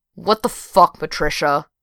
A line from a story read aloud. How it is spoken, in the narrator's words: She growled into the phone